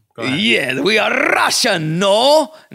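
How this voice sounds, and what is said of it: Put-on Russian accent, Borat-like. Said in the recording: “can you do a Russian accent? ... No, that's kind of Borat.”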